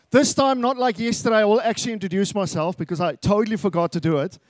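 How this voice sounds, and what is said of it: South African accent. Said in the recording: “I am from South Africa, so get used to the accent.”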